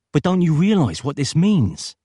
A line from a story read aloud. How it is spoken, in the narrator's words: cried Peter